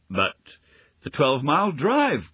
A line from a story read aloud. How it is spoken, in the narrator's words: gasped Heatherly